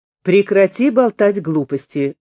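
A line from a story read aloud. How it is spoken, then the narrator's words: Loud speech. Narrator (Russian): громко сказал Хильер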